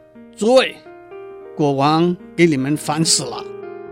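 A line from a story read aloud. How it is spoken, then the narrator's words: Loud announcement. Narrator (Chinese): 司仪的大臣高声地说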